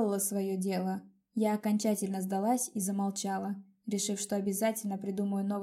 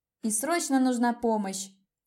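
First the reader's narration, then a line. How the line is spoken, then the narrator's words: Yelling. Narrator (Russian): вопила я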